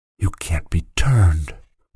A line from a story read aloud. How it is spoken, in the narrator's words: whispered the boy